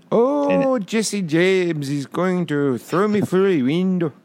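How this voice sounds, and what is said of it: Bad put-on accent, sounds Swedish. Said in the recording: “That was Swedish... I can't do accents”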